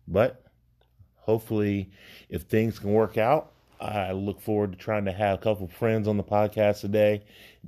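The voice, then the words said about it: Weak, fading voice. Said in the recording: “my voice is kind of leaving me again. For whatever reason, it comes and goes.”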